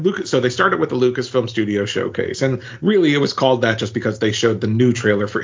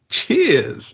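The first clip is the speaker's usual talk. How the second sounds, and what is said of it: Put-on British accent. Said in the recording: “In your British voice,”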